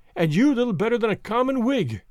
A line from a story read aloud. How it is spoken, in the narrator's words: cries Allan